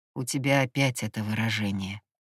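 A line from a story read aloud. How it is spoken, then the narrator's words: Mutter. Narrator (Russian): пробормотал он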